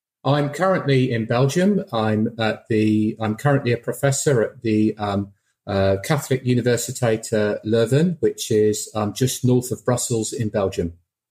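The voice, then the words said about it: British accent. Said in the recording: “you have a delightful British accent.”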